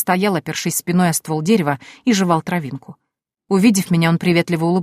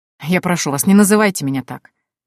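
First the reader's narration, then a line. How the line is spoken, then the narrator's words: Snorting. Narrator (Russian): фыркнул Норфолк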